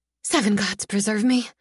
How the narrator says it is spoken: whisper

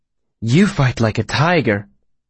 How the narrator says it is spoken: she said, her voice glowing with admiration

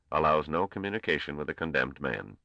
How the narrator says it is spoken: said the Grand Master coldly

